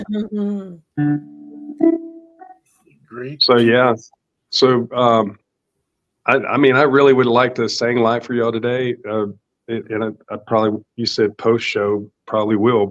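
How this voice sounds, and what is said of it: Rough, hoarse voice. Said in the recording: “I'm a little rough. ... My voice is a little bit jacked up from being sick.”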